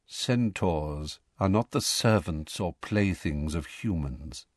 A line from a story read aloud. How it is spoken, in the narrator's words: said Firenze quietly